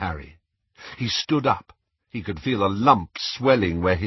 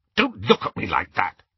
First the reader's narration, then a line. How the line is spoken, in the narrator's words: he snapped